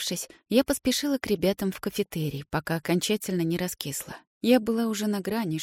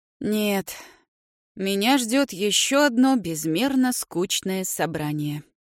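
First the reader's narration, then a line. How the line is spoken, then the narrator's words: Sighing. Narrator (Russian): вздохнул папа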